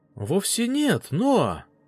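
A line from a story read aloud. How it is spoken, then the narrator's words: Female exclamation. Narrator (Russian): воскликнула она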